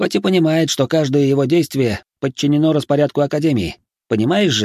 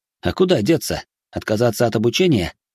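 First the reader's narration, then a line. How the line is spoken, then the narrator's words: Wry snort. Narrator (Russian): хмыкнул я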